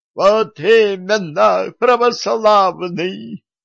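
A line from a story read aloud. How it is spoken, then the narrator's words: Ecstatic howl. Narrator (Russian): восторженно взвыл патриарх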